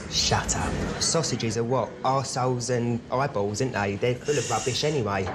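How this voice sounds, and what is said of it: Essex accent. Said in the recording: “The Essex accent has got to be the funniest British accent.”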